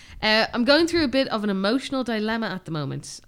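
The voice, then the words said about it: Northern Irish accent. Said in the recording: “I'm from Northern Ireland, great accent”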